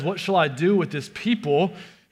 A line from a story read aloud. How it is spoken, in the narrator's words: he says